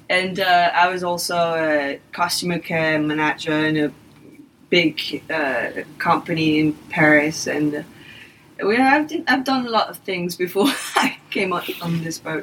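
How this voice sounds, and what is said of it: English-French accent. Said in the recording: “you have an English-French accent to my ear... trying my best not to have a French accent”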